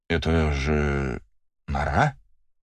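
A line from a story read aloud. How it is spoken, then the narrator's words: Uncertain question. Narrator (Russian): неуверенно спрашивает барон Крюгер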